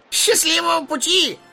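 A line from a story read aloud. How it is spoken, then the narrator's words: Shouted. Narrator (Russian): крикнул Барли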